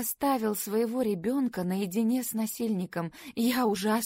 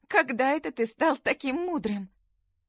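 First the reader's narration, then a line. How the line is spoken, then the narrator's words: Sigh. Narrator (Russian): Джейми вздохнул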